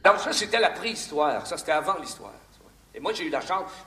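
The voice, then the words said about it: Québécois French accent. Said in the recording (French): “Il nous vient du Québec. ... Vous allez découvrir son, accent.”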